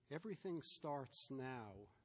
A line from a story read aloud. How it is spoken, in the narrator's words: Ben said